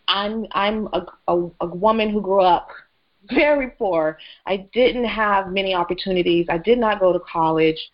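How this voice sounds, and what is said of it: Emotional, halting voice. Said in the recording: “I still get emotional about it”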